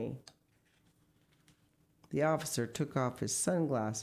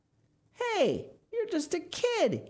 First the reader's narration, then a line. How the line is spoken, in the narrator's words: exclaimed